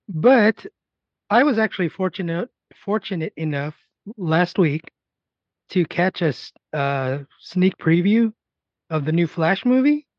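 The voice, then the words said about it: Rough, unwell-sounding voice. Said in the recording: “my voice is still crappy”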